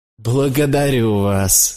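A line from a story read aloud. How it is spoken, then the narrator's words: Exclaiming, laughing heartily. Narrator (Russian): воскликнул я, смеясь от души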